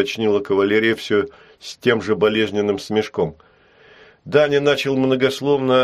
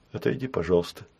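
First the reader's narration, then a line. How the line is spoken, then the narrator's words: Quiet request. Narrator (Russian): тихо попросила кавалерия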